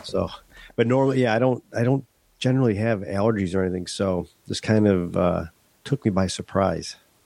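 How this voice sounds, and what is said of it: Congested, stuffed-up voice. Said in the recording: “You can probably tell in my voice a little bit. I'm a little stuffed up ... I have a head cold.”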